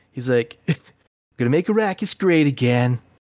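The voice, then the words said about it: Trump impression. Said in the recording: “Trump. ... as the worm”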